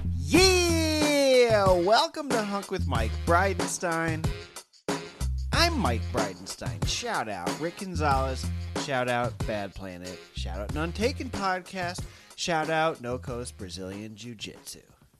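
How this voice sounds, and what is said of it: Yelling, shouting loudly. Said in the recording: “I'll stop yelling.”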